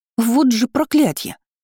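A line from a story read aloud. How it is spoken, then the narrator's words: Exclaiming. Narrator (Russian): воскликнула я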